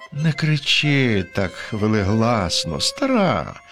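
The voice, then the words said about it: Gentle, soft-spoken character voice. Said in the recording (Ukrainian): “Лагідним голосом промовив дяк”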